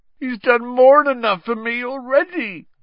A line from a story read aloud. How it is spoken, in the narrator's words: groaned Hagrid